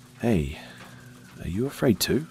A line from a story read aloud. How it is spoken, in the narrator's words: I asked quietly